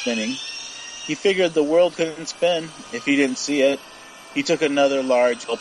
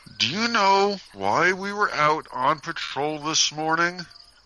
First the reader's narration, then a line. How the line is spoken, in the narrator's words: Marcus asked him through clenched teeth